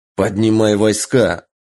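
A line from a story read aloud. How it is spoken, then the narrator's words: Growled. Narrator (Russian): рыкнул Таро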